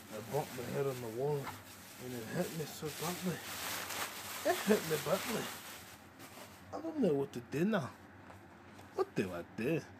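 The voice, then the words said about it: Put-on possibly Scottish accent. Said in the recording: “I'll just keep talking in the accent. What accent is this? Is this Scottish? Is this Scottish?”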